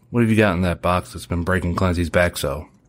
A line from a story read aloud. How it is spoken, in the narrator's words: Weston said it with a smile